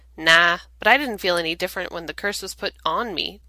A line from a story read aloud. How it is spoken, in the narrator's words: Dean says, and then sighs